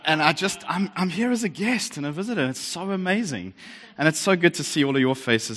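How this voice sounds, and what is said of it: Australian accent. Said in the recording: “Some of you may recognize this as a South African accent. It's actually Victoria. We sound a little different down there on the other side of the hat.”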